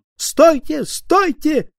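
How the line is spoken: Shouting. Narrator (Russian): кричал журналист Снейт

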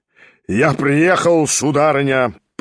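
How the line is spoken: Booming, trumpet-like. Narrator (Russian): прогремел было он, как в трубу

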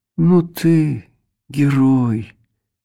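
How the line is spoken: Gentle reproach. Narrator (Russian): ласковым голосом попенял он

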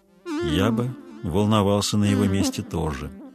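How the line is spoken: Thoughtful. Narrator (Russian): задумчиво произнес Дарветер

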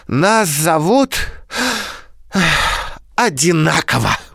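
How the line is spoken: Sighing reply. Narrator (Russian): вздохнув, ответил Павлик

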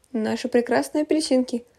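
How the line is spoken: Laughing mother. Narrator (Russian): смеясь добавила мама

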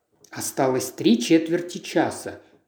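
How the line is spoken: Muttered. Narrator (Russian): пробормотал он

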